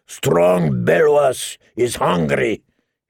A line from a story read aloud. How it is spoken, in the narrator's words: he roared at everyone